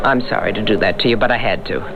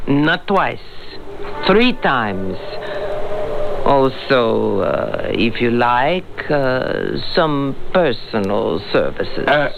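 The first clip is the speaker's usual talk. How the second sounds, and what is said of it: Fake Russian accent. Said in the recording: “Where's your accent? ... I'm not a Russian secret agent”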